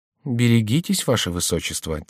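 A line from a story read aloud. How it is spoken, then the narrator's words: Quiet. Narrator (Russian): тихо сказал Орельи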